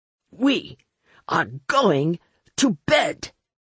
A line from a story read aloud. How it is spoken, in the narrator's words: he roared at me, loudly enough for everyone to stop fighting